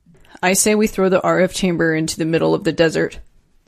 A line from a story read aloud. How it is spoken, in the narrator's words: Peter said flatly